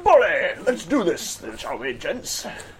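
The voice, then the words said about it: American adventurer voice. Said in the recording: “channel a little bit of Teddy Roosevelt. You think of this guy as an explorer ... an American adventurer kind of thing”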